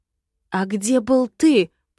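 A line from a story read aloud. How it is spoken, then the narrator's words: Growling. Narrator (Russian): прорычала я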